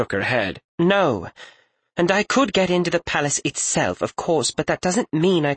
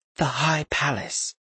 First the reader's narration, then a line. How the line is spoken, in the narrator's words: she said in a half-whispered tone